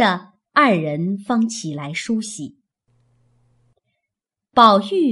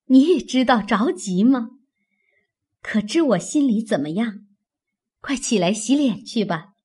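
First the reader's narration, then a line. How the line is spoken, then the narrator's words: Laughing. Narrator (Chinese): 袭人笑道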